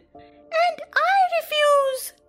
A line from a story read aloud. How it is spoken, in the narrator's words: cried Michael